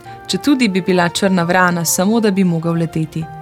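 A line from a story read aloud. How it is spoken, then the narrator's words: Sighing. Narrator (Slovenian): je vzdihnil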